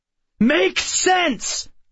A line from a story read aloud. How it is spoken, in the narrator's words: I shouted, losing my temper